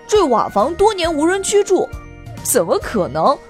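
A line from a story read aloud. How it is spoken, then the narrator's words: Laughing. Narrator (Chinese): Kevin 大笑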